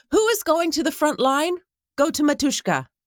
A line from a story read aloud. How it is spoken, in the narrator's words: Euphrosyne asked loudly